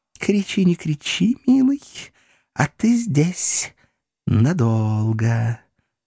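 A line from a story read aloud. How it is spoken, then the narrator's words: Mysterious cooing woman. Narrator (Russian): загадочно проворковала француженка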